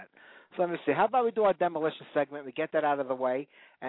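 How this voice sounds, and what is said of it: Brooklyn New York accent. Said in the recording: “if you haven't been able to tell by the accents over here, Brooklyn, New York”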